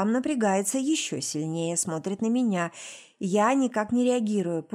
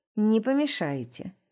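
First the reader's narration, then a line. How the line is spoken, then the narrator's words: Dry clipped. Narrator (Russian): сухо чеканит Рустам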